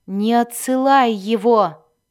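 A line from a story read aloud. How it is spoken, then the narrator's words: Growl. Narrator (Russian): прорычал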